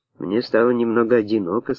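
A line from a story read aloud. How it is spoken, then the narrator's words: Plain. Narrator (Russian): сказал Карлон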